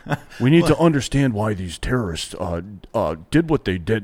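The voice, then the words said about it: Imitates another person's voice. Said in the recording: “That's a good impression of him, by the way.”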